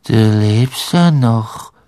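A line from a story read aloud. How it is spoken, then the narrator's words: Toneless voice. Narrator (German): sagte sie mit tonloser Stimme zu Harry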